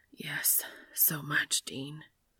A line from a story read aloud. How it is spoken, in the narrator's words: Dean whispers into Cass's ear